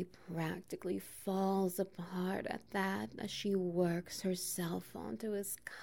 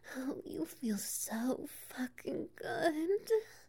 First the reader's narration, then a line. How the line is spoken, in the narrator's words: she cries out, cock brushing against her G-spot